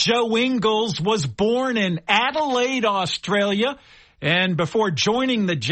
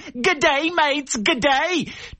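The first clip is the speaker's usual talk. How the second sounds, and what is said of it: Put-on Australian accent. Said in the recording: “an Australian accent”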